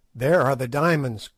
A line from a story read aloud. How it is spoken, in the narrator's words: cried